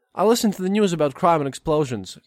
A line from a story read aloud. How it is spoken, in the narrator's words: Agafia says